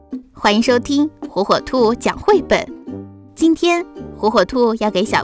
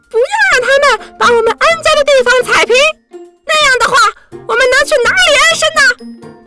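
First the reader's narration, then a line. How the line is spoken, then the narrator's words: Seabirds crying out. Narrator (Chinese): 海鸟们喊着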